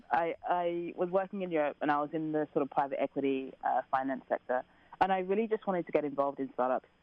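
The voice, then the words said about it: Slight English accent. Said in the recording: “You can tell from my accent, I'm English ... I have a little accent. I try and hide it, but it comes out all the time.”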